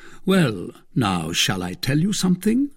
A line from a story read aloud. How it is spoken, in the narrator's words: added Athos coolly